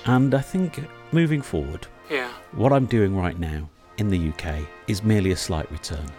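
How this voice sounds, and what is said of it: British accent. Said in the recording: “As you can tell by my accent, I'm originally from there.”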